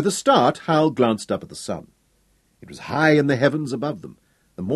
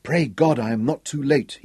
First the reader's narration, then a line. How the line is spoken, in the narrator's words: whispered to himself